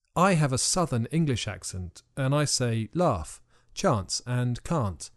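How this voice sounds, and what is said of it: Usual voice. Nothing is said of it.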